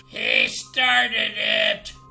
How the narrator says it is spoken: the goblin squealed

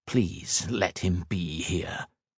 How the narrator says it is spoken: whispered

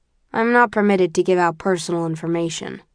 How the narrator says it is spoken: replies blandly

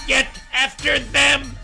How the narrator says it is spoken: Finland screamed

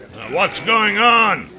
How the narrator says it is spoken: yelled

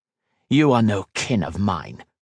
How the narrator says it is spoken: he spat back

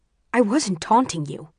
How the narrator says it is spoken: he snaps

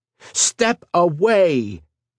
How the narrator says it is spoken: shouted, enhancing his voice with magic

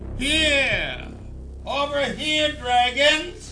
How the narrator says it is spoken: Gorley laughed

